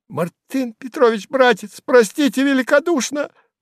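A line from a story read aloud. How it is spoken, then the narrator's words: Timid babbling. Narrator (Russian): пролепетал Сувенир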